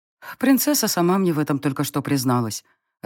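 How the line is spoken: Disappointed sigh. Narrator (Russian): разочарованно вздохнула я

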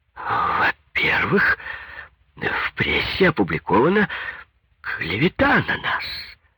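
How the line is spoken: Slight stutter. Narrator (Russian): Павел Семенович от неожиданного оборота слегка заикался

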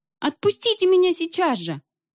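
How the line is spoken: Girl screaming. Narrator (Russian): девочка, удерживаемая Пангуби, закричала

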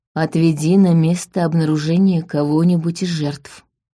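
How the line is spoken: Soft whisper. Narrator (Russian): тихонько прошептал

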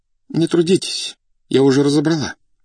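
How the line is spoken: Trembling voice from behind. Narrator (Russian): сказала за спиной дрогнувшим голосом Зинаида Дмитриевна

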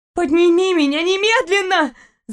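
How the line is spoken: Terrified girl's scream. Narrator (Russian): закричала девушка с ужасом, понимая, что висела над пустотой

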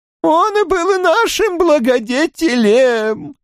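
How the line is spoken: Group yelling. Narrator (Russian): вопили они

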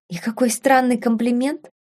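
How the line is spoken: Muttering. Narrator (Russian): пробормотала Беладонна

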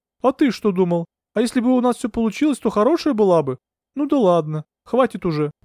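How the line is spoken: Cooing. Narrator (Russian): проворковала Алевтина

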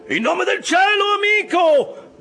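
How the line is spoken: Shouted. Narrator (Italian): gridò Stubb

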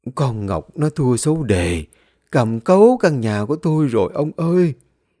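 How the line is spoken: Old woman, sad, suppressed sigh. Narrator (Vietnamese): Bà Thi nén tiếng thở dài, cất giọng buồn buồn trả lời

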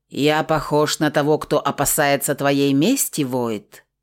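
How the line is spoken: Growled. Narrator (Russian): рыкнул Бронзовый

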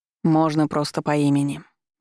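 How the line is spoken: Soft remark. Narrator (Russian): мягко заметил он

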